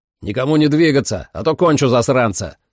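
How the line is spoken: Shout. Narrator (Russian): крикнул Сэм

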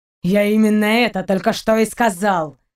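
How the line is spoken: Impatient, through gritted teeth. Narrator (Russian): Процедил сквозь зубы Даллок, теряя терпение

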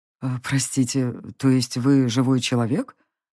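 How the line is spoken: Uncertain old man asking. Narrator (Russian): неуверенно уточнил старец

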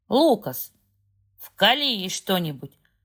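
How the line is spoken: Barking man. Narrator (Russian): рявкнул мужчина в полицейской форме

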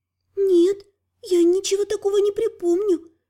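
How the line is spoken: Timid, uncertain. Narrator (Russian): робко и неуверенно пожала плечами библиотекарша

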